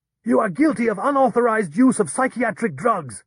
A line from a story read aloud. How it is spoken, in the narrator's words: Grishkin shouted